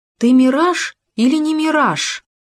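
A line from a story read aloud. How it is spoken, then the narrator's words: Trembling brave shout. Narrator (Russian): Задрожал, но храбро крикнул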